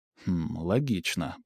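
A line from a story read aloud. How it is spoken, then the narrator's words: Muttering. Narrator (Russian): пробормотал я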